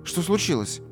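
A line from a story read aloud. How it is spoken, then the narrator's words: Frightened question. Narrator (Russian): испуганно спросила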